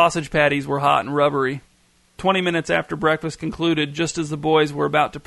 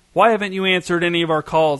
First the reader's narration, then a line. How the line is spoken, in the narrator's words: asked Shane's dad, almost shouting